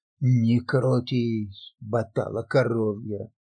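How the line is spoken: Stern rebuke. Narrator (Russian): строго одернул его монах

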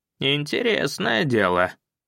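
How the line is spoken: Weak voice. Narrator (Russian): слабым голосом отозвался

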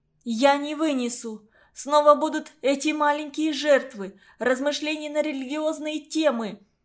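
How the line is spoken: Sudden loud hysterical shout. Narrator (Russian): вдруг я громко, истерически крикнула

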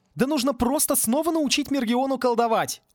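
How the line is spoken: Worked-up shouting. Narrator (Russian): разошелся настолько, что кричал эти слова сам

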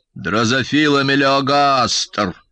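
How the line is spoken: Creaky old voice. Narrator (Russian): проскрипел батя

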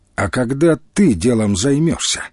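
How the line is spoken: Stern question. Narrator (Russian): строго спросил Демченко у Тимофея

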